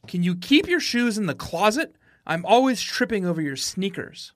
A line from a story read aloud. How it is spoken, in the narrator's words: she shouted